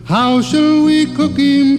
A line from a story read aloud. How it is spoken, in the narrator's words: cried Billy Barlow